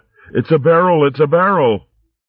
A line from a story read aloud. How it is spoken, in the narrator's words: They both yelled out